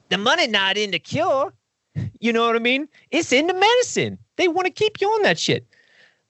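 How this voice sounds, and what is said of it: Uncanny imitation of a comedian's voice. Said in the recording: “That's an uncanny Chris Rock impersonation.”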